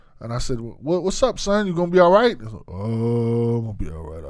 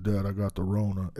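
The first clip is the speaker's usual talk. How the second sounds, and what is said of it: Deep-voiced imitation of another person. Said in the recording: “his voice is way deeper than mine”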